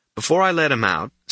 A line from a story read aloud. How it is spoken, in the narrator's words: Stucky says